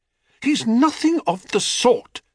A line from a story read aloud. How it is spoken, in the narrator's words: said Psyche indignantly